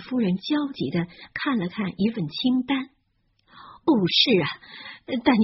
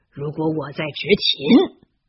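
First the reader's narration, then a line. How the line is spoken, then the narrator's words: Furious. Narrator (Chinese): 威斯莱先生怒气冲冲的 说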